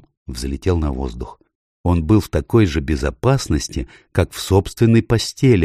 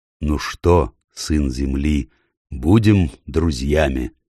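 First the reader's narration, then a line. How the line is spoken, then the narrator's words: Plain. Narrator (Russian): спросил Аслан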